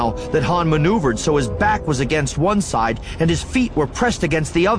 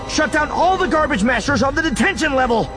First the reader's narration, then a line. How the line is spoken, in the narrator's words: Luke yelled into the comm